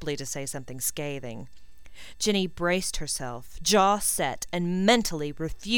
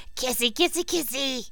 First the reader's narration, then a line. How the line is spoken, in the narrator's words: he cackled